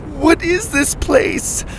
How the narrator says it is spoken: Lainey cried

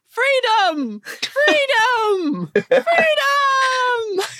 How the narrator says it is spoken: they yell

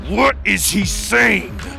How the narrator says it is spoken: Maximus roared

